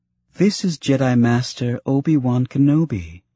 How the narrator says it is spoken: Tonwi said, her tone lighter, obviously an attempt to relieve some of the palpable tension

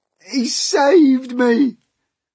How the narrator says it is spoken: gasped the centipede

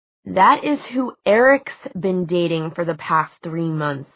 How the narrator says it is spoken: Simon said

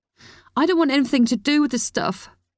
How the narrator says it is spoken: Chloe snapped, her voice high-pitched

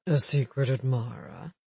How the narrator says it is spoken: Alec said in a low voice

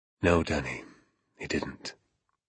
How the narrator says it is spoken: he answered softly

